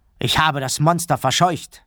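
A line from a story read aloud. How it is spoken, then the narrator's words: Called out. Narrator (German): rief er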